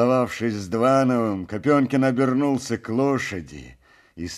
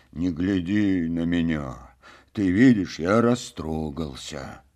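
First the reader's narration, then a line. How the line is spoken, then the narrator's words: Quiet, moved. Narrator (Russian): тихо беседовал Копенкин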